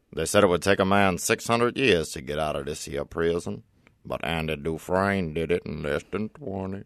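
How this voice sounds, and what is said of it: Imitates another person's voice. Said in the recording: “both the best and worst Morgan Freeman impersonation you've ever heard ... That was amazing.”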